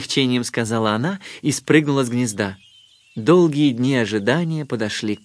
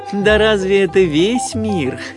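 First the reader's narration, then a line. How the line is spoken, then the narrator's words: Laughing mother duck. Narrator (Russian): расхохоталась мама-утка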